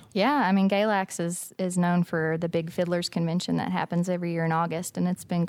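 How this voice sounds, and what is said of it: Appalachian Virginia accent. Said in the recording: “I'm from the breadbasket of traditional American music down here in Galax, Virginia? ... I think the accent kind of gives it away.”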